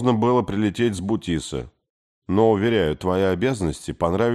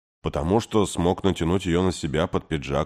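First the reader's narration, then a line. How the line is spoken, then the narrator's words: Calm. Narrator (Russian): спокойно ответил Кей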